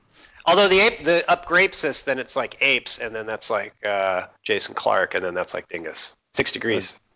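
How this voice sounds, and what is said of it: Congested voice from a cold. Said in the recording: “I have a bit of a cold”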